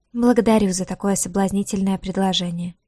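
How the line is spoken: Embarrassed mumble. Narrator (Russian): пробормотала девушка, слегка покраснев

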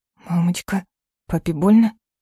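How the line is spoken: Frightened child's whisper. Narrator (Russian): испуганно шепчет Эльдар

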